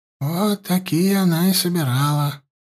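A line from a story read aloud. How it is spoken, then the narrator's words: Sigh. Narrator (Russian): вздохнула Селина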